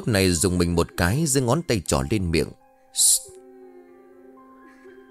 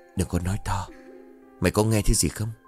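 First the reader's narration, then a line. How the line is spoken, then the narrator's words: Whisper. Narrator (Vietnamese): Hậu thì thầm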